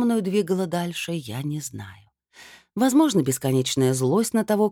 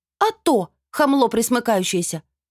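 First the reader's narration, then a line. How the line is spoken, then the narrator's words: Barked retort. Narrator (Russian): рявкнула в ответ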